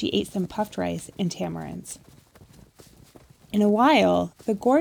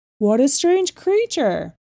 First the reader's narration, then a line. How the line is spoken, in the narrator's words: cried